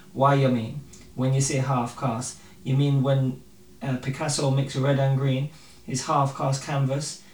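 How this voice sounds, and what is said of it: Reads poem in put-on accent. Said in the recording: “I have to read this in accent”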